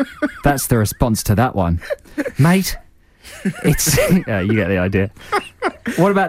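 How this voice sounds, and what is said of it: Usual voice. Nothing is said of it.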